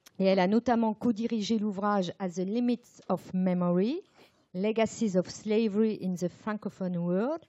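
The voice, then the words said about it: Accented English pronunciation. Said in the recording (French): “Sorry for the accent.”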